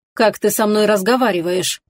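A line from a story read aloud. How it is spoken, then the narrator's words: Cold commanding tone. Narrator (Russian): холодно и властно проговорила Лоран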